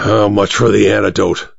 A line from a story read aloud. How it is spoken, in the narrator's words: Sangstrom growled